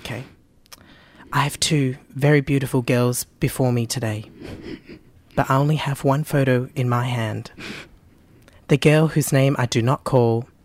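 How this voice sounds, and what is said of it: Imitates another person's voice, serious. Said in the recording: “do you want to insert a Tyra impersonation here? ... She's very serious. ... She's got her serious face on.”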